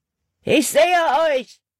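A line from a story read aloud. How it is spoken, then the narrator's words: Called out. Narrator (German): rief Hutton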